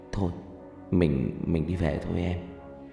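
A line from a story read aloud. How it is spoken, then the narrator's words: Soft. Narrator (Vietnamese): Thành nói khẽ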